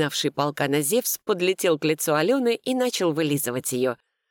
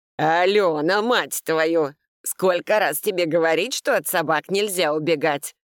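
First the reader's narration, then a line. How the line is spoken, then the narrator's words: Thundering angry voice. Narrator (Russian): прогремел Сергей Степанович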